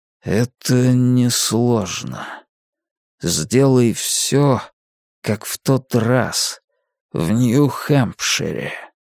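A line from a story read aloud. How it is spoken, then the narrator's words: Even, slow, weighty. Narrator (Russian): говорит он ровным голосом, но очень медленно, словно каждое слово обладает немалым весом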